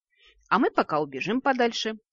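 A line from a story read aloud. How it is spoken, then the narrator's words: Cheerful. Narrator (Russian): радостно кивнул о храм Лукуш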